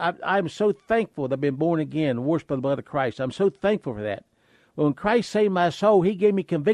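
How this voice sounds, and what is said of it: Usual voice. Nothing is said of it.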